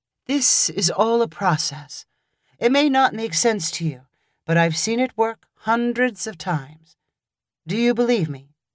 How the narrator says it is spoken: said calmly

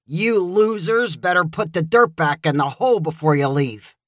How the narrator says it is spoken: Joey's dad grumbled and said

